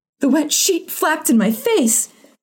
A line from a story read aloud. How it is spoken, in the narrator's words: she cried